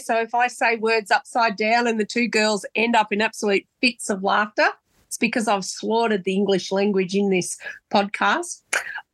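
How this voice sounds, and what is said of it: Congested voice from a cold. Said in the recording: “I've got a bit of a cold”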